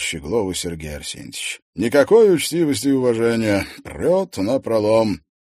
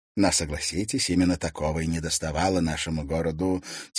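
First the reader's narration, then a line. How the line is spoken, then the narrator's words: Quiet. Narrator (Russian): тихо произнес редактор газеты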